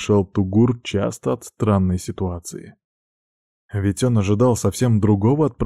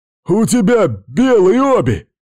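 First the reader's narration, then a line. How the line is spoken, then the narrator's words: Yelled in pain and hatred. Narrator (Russian): заорал от боли и ненависти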